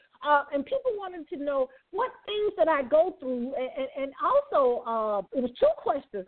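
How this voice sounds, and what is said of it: Birmingham, Alabama Southern accent. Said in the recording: “I'm from Birmingham, Alabama. I know you knew that, right, from my accent.”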